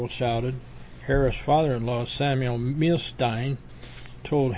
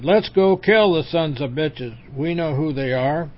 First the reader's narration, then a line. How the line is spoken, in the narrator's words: Joe Harris jumped up and shouted